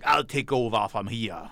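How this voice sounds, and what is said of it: Bad fake French accent. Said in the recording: “I do have terrible French accents. ... That was horrible. ... That wasn't French.”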